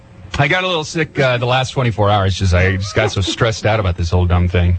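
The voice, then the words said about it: Hoarse, strained voice. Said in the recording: “lost my voice earlier today... You're going hoarse, man... You got sick, too.”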